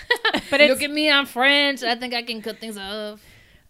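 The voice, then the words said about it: Put-on French accent. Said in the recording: “my French accent is so good ... So good.”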